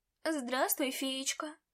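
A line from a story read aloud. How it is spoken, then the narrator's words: Purring cat. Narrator (Russian): промурлыкал кот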